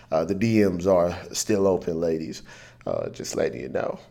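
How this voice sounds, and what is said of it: Put-on sexy, seductive voice. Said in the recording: “That's my sexy voice.”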